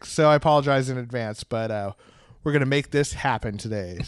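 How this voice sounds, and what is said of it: Lower, sick-sounding voice. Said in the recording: “my voice is a little lower than it is normally, that's because I'm sick”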